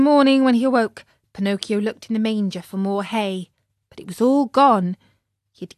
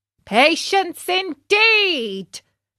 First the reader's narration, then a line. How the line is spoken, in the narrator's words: shouted his master just then, as he came into the stable